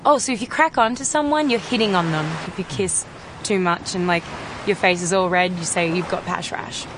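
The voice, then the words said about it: Australian accent. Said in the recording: “the Australian accent”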